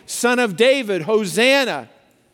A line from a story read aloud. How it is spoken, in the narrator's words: the same crowds that a few days ago were yelling